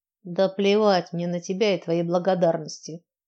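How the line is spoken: Scornful snort. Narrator (Russian): фыркнула я

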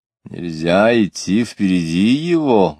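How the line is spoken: Loud question. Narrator (Russian): громко спросил осанистый человек

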